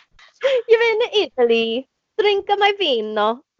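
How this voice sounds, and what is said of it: Bad put-on Italian accent. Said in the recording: “Horrible Italian accent.”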